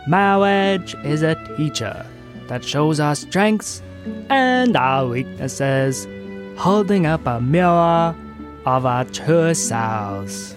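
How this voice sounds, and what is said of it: Impression of Princess Bride priest. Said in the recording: “my impression of the Princess Bride priest guy? Pretty good.”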